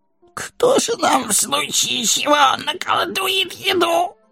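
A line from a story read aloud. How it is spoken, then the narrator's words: Whining. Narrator (Russian): Захныкали Дори и Нори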